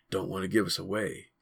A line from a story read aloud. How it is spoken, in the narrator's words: he said softly